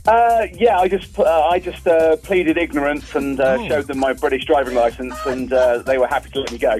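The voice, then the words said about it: Speaks with a foreign accent. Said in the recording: “Did the accent work?”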